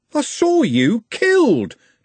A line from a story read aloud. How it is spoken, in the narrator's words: Trev shouted